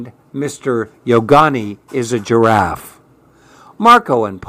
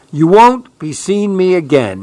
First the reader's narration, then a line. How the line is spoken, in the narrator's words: cried